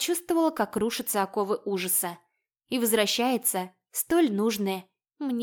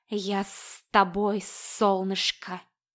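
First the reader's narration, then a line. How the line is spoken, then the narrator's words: Hissing. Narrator (Russian): его шипение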